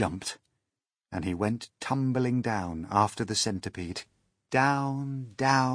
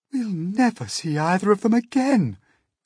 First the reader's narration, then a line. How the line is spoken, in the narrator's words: cried the ladybird